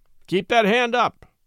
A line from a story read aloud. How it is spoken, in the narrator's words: cried Brown threateningly